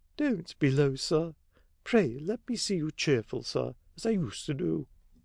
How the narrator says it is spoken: Sparsit murmured

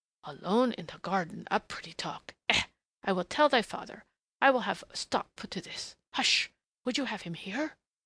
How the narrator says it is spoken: she admonished in a sudden whisper

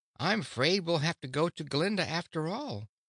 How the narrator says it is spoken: exclaimed Dorothy

